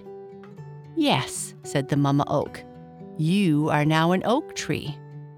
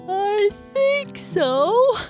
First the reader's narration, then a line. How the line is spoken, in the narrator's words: Bernice said with an even bigger yawn